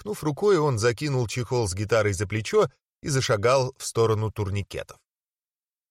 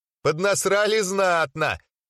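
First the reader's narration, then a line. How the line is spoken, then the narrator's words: Loud laughter. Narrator (Russian): снова захохотал Демьян Денис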